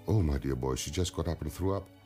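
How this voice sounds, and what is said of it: Imitated heavy Russian accent. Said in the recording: “in her typical heavy Russian accent”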